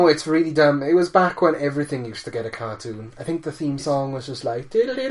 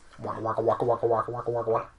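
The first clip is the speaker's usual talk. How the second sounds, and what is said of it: Imitates Pac-Man's waka sound effect. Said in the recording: “that your impression of the noise he makes? ... Okay, that's pretty good.”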